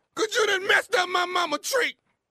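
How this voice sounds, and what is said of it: Crying, tearful voice. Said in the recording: “What the hell you crying for, man? What the crying for? ... You sound like a girl.”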